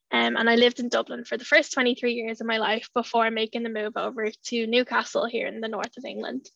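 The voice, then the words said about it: Irish accent. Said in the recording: “if it isn't already noticeable from my accent, I'm originally Irish”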